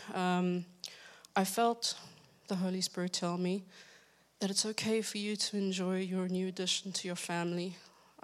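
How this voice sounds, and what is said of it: Unusual, strange-sounding accent. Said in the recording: “Sorry about my strange accent.”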